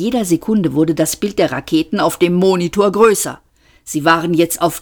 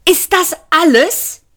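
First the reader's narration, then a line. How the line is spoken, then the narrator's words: Shout. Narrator (German): schrie Arthur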